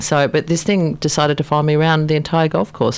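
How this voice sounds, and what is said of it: Australian accent. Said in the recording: “your Australian accent”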